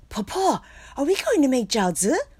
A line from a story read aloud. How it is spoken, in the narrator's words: excitedly asked